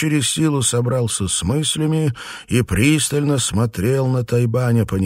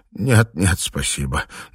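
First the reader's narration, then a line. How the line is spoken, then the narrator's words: Trembling voice. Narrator (Russian): дрожащим голосом произнес Филипп Чень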